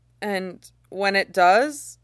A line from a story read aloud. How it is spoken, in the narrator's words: Bingha asks nervously